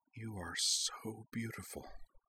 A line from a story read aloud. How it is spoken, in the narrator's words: Azana whispered